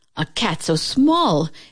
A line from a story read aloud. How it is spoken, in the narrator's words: exclaimed the farmer